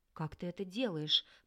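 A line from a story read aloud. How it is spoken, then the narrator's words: Stunned whisper. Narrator (Russian): прошептал остолбеневший орлик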